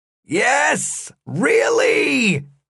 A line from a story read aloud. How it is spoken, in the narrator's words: The guard shouted